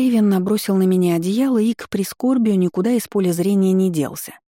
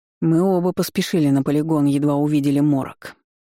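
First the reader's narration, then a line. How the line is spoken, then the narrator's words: Grumbled. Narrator (Russian): проворчал мастер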